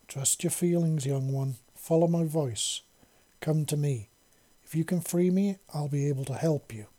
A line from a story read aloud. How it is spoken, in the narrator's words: the Queen said